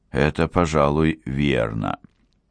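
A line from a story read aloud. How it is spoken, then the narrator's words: Muttered reply. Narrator (Russian): послышалось в ответ бормотание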